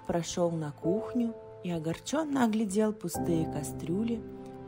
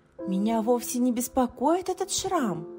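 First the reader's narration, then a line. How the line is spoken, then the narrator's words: Exclaimed. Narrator (Russian): воскликнула Шу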